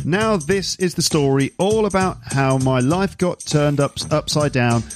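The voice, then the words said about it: Raps in a put-on British accent. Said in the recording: “am I going to do it in a British accent? Let's do it in a British accent. Now, this is going to sound completely ridiculous. The Fresh Prince of Bel-Air theme, rapped by me in a British accent,”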